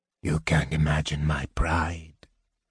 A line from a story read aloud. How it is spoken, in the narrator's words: Raistlin said coldly, irritated at the interruption